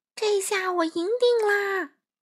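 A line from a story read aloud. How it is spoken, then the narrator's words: Shouting. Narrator (Chinese): 帅狼 嘴里大喊着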